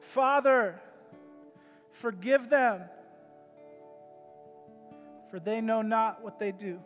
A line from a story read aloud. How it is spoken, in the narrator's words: he expended all of his energy and cried out